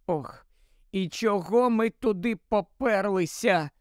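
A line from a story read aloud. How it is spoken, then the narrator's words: Moaning. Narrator (Ukrainian): простогнала Герміона після кількох хвилин мовчання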